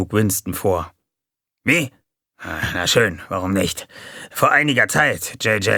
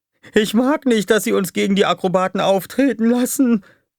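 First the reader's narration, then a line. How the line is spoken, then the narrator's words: Whining. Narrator (German): jammerte Dupi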